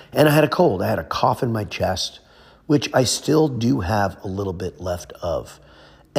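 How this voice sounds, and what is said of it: Hoarse, weakened voice. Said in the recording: “lost my voice. My voice is still not back, obviously.”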